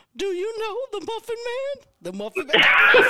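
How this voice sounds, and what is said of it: Gingerbread Man voice from Shrek. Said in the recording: “the gingerbread man from Shrek ... do the voice now. I don't know if I can still do the voice”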